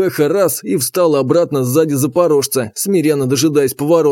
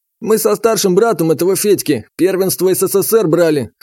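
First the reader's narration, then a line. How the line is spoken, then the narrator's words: Wry grunt. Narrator (Russian): хмыкнул тренер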